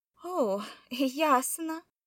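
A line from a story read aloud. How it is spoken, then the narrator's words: Forced, strained words. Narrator (Russian): выдавила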